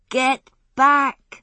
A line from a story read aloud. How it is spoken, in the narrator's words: shouted